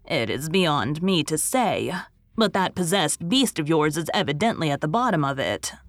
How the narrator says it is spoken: said Susan

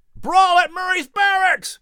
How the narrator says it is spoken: Someone shouted in the streets

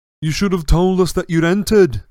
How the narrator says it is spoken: bellowed Fred

